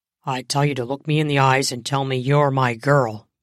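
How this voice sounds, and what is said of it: Firm, smooth, sexy male voice. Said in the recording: “firm, sexy voice ... His voice was confident and smooth”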